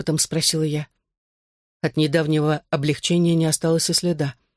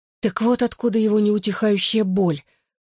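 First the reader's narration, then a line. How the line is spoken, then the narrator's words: Hoarse. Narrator (Russian): хрипло сказала я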